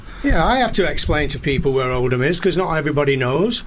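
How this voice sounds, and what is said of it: Northern English accent. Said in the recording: “they couldn't understand my northern accent”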